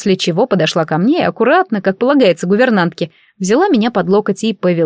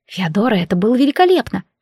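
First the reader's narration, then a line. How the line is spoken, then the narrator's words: Whisper. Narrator (Russian): шепнула я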